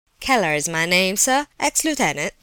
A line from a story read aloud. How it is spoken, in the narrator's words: he said very loudly